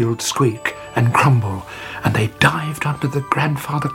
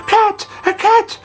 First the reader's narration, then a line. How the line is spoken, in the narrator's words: they cried